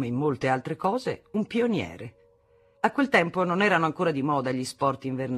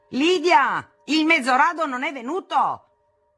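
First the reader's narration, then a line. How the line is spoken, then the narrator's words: Thundering down corridor. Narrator (Italian): tuonava per il corridoio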